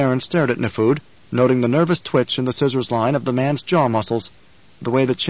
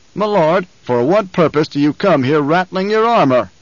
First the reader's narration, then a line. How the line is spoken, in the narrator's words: the Baron roared